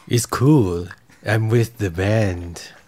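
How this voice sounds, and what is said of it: Vampire character voice. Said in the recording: “Vampire ... me turned into a vampire”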